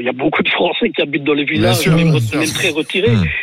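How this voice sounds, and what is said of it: Belgian French accent. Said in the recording (French): “vous êtes d'origine belge ou pas? ... L'accent, je n'osais pas demander”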